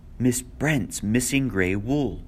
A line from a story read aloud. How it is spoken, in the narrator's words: She said, and her voice shook with horror